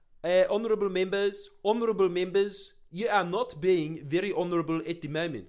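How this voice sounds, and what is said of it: Imitated South African parliamentarian accent. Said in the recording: “I was watching the ANC versus in their parliament ... their accents are hilarious. What is that accent?”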